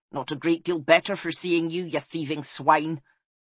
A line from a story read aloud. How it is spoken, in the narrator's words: snapped Magrig